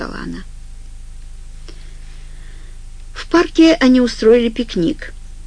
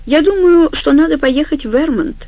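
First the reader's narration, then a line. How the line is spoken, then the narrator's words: Unsure, hesitant. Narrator (Russian): сказал неуверенно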